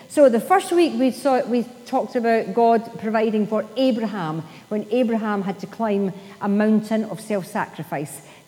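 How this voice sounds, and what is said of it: Scottish accent. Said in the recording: “you still hear me speaking with a good Scottish accent”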